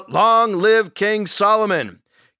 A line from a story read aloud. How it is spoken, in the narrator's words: Everybody shouted out